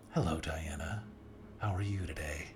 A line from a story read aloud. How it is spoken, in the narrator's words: she asked in her typical soothing tone